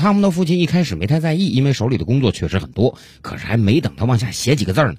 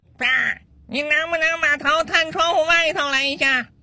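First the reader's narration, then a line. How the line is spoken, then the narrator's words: Child shouting from below. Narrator (Chinese): 楼下自己的小儿子在大声喊他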